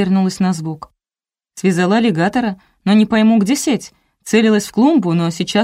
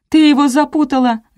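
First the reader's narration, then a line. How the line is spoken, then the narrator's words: Shouting. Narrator (Russian): закричала Ляля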